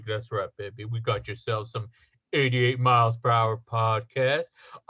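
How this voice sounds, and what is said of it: Deep old-time radio DJ voice. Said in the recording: “the sexy sounds of 80 years ago... those like deep voice, like radio disc jockeys”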